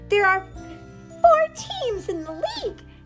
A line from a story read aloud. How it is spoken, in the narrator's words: shouted Sister